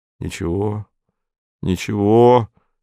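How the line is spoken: Gentle. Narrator (Russian): сказал Антон ласково

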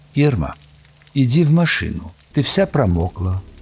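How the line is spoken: Very calm. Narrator (Russian): Он сказал очень спокойно

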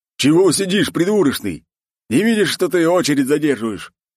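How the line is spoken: Man's angry bark. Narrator (Russian): рявкнул на меня второй мужик

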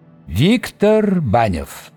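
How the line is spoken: Formal lofty proclamation. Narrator (Russian): провозгласил долговязый казенно возвышенным голосом

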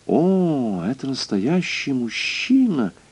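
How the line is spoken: Crystal-clear voice. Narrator (Russian): Госпожа Мозес произнесла хрустальным голосом

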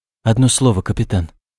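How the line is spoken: Trembling voice. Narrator (Russian): проговорил он дрожащим голосом

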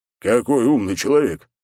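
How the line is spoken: Smirking grunt. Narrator (Russian): хмыкнул

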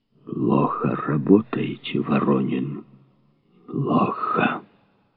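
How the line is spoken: Hoarse. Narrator (Russian): сипло сказал шеф

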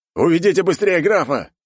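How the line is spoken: Guard's bark. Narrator (Russian): рявкнул гвардеец

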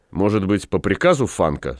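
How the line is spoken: Plain. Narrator (Russian): спросил вепрь

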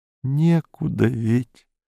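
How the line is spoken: Said quietly. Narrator (Russian): сказала она тихонько

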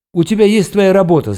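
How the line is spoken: Choked yelling. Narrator (Russian): заорал я, чувствуя, что у меня что-то сжимается в горле

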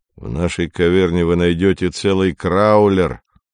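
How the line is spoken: Gloomy grumble. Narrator (Russian): мрачно проворчал Навага

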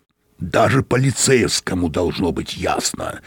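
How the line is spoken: Irritated growl. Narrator (Russian): раздраженно прорычал Мозес

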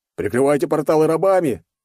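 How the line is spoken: Man shouting. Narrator (Russian): Один пузатый мужичок выкрикнул

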